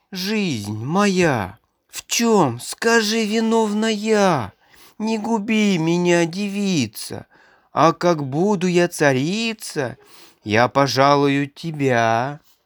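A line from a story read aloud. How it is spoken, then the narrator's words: Pleading. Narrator (Russian): И взмолилась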